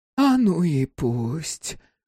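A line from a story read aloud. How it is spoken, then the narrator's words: Gentle soothing mother. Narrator (Russian): отвечала мать ласково, будто бы утешала малыша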